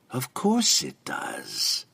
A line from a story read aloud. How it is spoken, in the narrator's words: the female purred